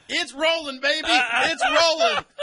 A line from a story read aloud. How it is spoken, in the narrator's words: he was yelling